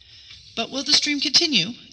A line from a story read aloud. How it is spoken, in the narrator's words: anxiously inquired Mamulu